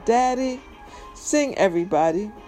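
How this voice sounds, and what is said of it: Sweet little girl voice. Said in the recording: “in my sweetest daddy little girl voice”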